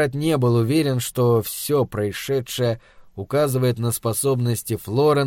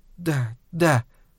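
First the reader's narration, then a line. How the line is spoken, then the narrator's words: Uncertain, smiling. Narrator (Russian): Неуверенно улыбнулась Флоренс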